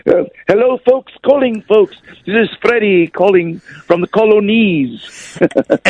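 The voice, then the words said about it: Bad put-on posh British accent. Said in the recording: “you'd come back with a really bad British one ... do the posh talk ... we're both terrible at accents”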